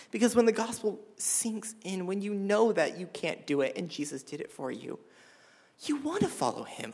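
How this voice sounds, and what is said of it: Tearful whisper, wavering voice. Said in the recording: “I'm whispering because my voice is going to fluctuate because I'm crying”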